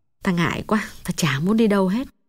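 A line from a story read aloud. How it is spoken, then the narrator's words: Sad, quiet voice. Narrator (Vietnamese): Mắt Hồng thoáng buồn, nàng hạ giọng nói nhỏ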